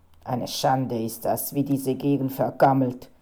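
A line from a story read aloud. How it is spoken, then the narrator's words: Growling, grumbling man. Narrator (German): knurrte der Fotograf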